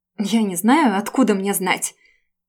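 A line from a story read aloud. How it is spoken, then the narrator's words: Sudden indignant outburst. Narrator (Russian): Девушка вдруг выпалила возмущенно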